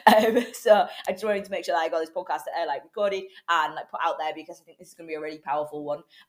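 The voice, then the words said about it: Hoarse, congested voice, breaking. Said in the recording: “my voice is a little bit dodgy today. I'm full of cold and, well, I'm losing my voice ... apologies if I do sound like a teenage boy or if at any point my voice breaks”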